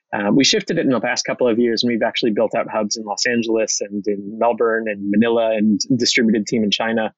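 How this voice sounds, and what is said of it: American accent. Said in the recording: “as you can tell from my accent, I'm American”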